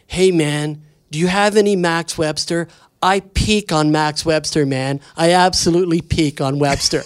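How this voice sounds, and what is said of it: Imitating a girl's voice at party. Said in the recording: “I'm doing her voice as best I can”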